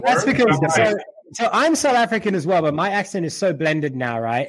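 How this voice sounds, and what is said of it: Blended Texan South African accent. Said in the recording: “It's a Texas South African accent ... has like a Texas wing at the back of some of his words”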